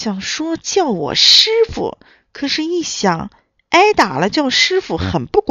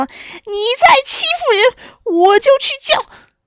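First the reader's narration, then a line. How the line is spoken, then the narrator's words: Shrill, frantic threat. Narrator (Chinese): 小猪急坏了，尖声吓唬他说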